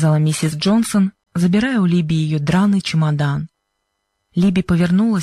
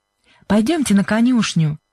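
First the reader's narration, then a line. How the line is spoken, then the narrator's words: Cheerful. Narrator (Russian): весело сказала Сьюзен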